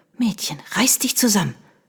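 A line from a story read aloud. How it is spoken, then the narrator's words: Hissed. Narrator (German): zischte sie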